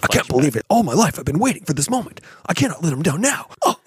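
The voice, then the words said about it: Imitates anime character's inner monologue. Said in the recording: “That was a perfect impression. ... Spot on.”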